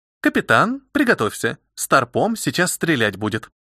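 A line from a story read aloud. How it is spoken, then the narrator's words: Matter-of-fact tone. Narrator (Russian): будничным тоном произнес Искин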